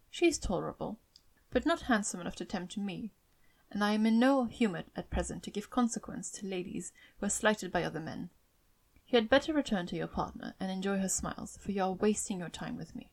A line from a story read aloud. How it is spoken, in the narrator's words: coldly said